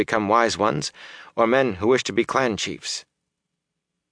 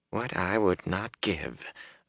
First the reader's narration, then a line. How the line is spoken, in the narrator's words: Varen muttered